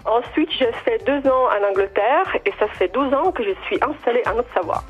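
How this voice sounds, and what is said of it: Italian accent speaking French. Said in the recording (French): “vous avez un accent quand même ... Je suis italienne.”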